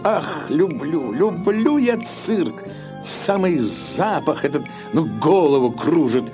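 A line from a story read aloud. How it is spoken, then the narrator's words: Laughing. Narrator (Russian): засмеялся и сказал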